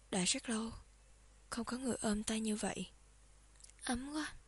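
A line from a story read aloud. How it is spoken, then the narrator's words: Sighing. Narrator (Vietnamese): Phong Vô Nhai thở dài nói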